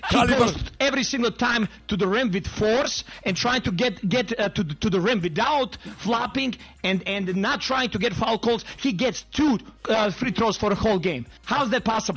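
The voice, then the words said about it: Eastern European accent. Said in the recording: “I love a good Eastern European accent as much as the next guy.”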